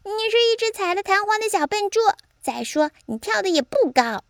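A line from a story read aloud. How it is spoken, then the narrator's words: Shrieking parrot. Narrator (Chinese): 鹦鹉尖叫着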